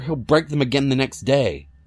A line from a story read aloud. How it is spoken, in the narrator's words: I said angrily